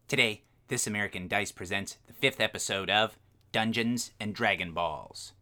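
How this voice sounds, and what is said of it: Announcer voice drifting into character voice. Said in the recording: “My announcer voice is kind of turning into a weird version of Terran Goldenstar's voice.”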